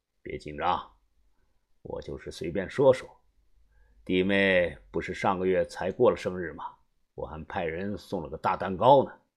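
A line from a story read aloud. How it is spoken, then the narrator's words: Calm, offhand. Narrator (Chinese): 田三九又淡淡的说道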